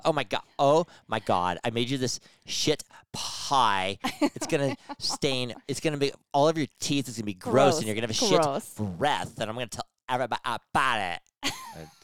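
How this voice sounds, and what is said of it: Put-on Valley girl voice. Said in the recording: “you sound like a Valley girl ... How's a Valley girl?”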